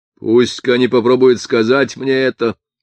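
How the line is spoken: Menacing yet languid low voice. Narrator (Russian): возразил Скваттер грозно, хотя низкий его голос был так же вял, как вся его манера

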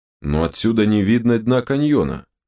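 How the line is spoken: Grumbling. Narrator (Russian): проворчал док

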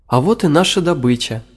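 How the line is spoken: Joyful voices. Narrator (Russian): радостно сказали они

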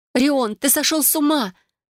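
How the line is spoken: Frightened exclamation. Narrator (Russian): Воскликнула она испуганно

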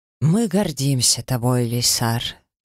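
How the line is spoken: Solemn. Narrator (Russian): торжественно произнес темноволосый дракон

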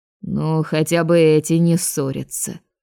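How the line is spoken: Old man, odd grunt. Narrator (Russian): Седобородый привратник странно хмыкнул и выдал

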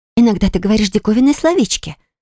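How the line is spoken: Thoughtful. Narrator (Russian): прокомментировала мисси задумчиво

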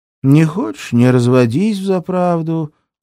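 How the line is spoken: Lazy. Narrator (Russian): лениво говорит Илона

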